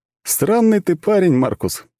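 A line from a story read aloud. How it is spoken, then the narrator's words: Laughing young lad. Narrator (Russian): засмеялся парнишка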